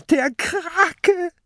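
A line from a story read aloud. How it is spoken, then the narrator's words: Shrieking. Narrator (German): kreischt Mathilda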